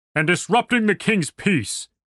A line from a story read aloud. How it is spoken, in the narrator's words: the soldier bellowed